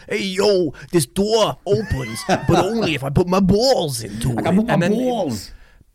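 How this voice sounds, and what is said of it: Put-on Brooklyn accent. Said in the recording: “I'm going to do him like a Brooklyn accent, because let's face it, he's just an American”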